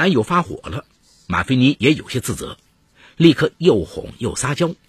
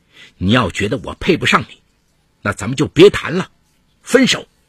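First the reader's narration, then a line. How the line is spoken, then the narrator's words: Disillusioned angry roar. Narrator (Chinese): 他忽然有一种看错人的感觉，大吼道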